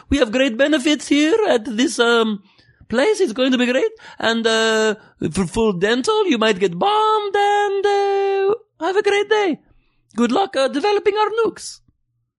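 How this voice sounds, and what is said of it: Loose put-on Middle Eastern accent. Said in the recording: “it's a loose accent, but I think it's in the general region, okay? I've spent some time in the Middle East.”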